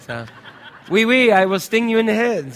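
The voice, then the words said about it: Put-on French accent. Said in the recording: “they spoke with a French accent.”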